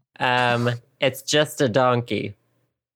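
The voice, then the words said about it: Shrek character accent. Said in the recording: “Will you do that accent again? Here, I'll give you a Shrek quote.”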